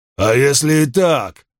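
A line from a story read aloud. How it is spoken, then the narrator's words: Snapping retort. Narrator (Russian): огрызнулся Крикс краснее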